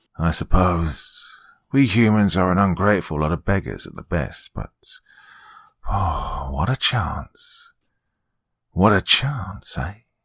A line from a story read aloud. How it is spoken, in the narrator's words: he ended